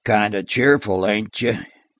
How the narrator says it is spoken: cut in Ronicky Joe, and his voice was as dry as the crisping leaves in an autumn wind

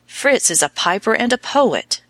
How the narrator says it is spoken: he cried desperately

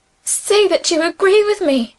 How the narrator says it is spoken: she pleaded

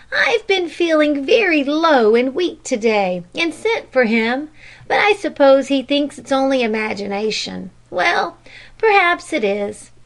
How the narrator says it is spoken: she added after a pause, and with a little sigh

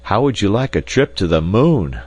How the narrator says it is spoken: I cried

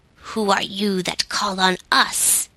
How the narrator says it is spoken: demanded one in a gruff voice

